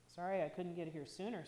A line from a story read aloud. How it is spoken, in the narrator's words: said Midge